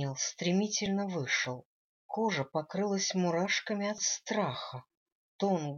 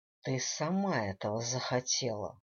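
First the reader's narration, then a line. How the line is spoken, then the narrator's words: Icy cold tone. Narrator (Russian): ледяным тоном произнес Дэниел Хьюз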